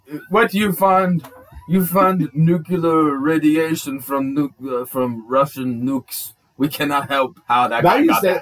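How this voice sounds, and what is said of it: Terrible put-on Russian accent. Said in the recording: “If Putin listens, I just want him to know that that is a terrible, terrible accent.”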